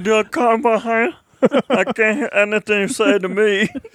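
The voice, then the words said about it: Imitates another person's voice. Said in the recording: “Deaf Enzo reappears on the podcast. ... I think it's a very good impression.”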